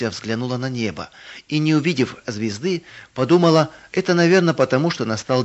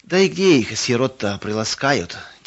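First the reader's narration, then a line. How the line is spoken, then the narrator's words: Heavy sigh. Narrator (Russian): тяжело вздохнул третий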